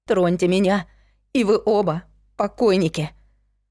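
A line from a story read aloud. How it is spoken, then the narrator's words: Trembling, bluffing voice. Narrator (Russian): дрожащим голосом сказала я, конечно, блефуя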